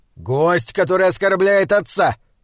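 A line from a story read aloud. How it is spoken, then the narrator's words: Angry bark. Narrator (Russian): рявкнул Гвитин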